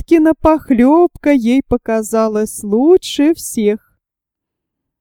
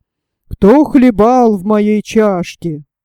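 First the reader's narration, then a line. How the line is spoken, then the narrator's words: Low growl. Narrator (Russian): Настасья Петровна зарычала не так громко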